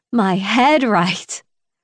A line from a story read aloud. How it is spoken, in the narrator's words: I scoff